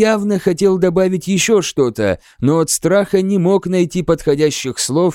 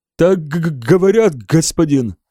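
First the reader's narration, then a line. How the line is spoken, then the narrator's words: Stammering, embarrassed answer. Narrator (Russian): запинаясь и краснея, ответил Хеберт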